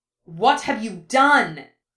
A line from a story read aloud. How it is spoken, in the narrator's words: spat